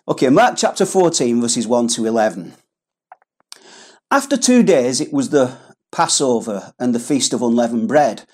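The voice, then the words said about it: Accent that drops H sounds. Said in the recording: “The letter H is the letter that killeth ... It's because of my accent, and try as I might, I cannot pronounce it properly”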